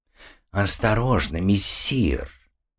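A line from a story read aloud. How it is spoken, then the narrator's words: Hiss. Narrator (Russian): прошипел король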